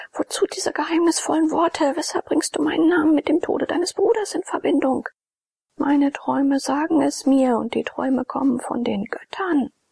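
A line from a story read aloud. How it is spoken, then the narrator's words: Passionate shout. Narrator (German): schrie Abakes leidenschaftlich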